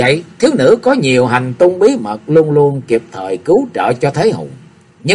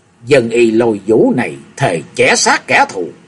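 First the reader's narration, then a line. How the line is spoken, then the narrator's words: Young woman's soft hiss. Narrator (Vietnamese): thiếu nữ áo hồng rít nhẹ qua lời nói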